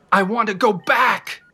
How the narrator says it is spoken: I yelled

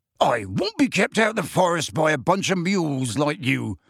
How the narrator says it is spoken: said Hagrid loudly

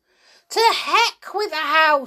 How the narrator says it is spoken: she shouted

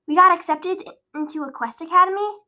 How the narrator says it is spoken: exclaimed Penelope

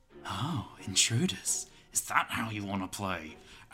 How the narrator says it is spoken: says menacingly

